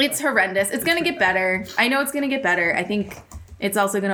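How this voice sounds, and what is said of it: Usual voice. Nothing is said of it.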